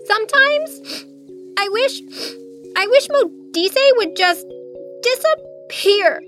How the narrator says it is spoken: swallowing hard past what felt like a rock lodged in her throat, she blurted

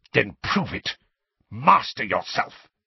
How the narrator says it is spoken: spat Snape

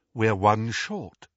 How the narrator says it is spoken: said Lupin

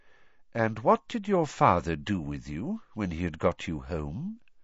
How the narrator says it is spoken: said Dumbledore quietly

